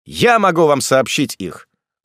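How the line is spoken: Loud. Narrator (Russian): сказал он громко

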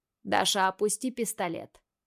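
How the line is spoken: Calm request. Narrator (Russian): Просит спокойно Марат

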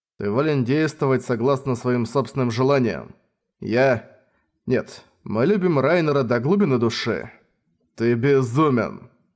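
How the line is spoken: Laughing. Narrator (Russian): рассмеялся

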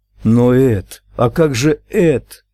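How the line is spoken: Exclaimed. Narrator (Russian): воскликнула Луиза

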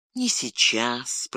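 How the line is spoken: Whispering. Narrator (Russian): прошептал он

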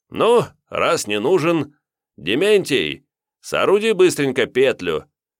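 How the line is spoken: Amused chuckle. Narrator (Russian): Хохотнув, и чего развеселился, именитый вотчинник

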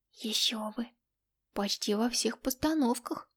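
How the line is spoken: Envious whistling hiss. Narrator (Russian): Завистливо присвистнула или скорее прошипела Катерина

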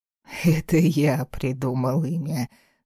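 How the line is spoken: Laughing father. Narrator (Russian): смеялся отец

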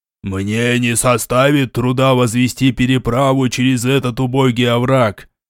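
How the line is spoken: Contemptuous demonic roar. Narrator (Russian): с презрением в голосе проревел демон

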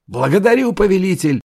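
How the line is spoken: Booming shout, mighty warrior. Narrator (Russian): зычно крикнул Бахдасар, мощный воин, издали похожий на гору

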